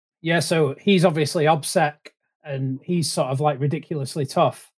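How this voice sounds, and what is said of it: Strong accent, hard to understand. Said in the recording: “just my rubbish accent.”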